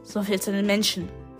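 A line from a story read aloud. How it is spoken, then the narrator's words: Growled. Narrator (German): knurrte Grio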